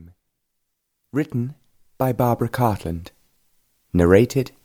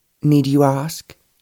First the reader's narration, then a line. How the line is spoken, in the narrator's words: Georgina replied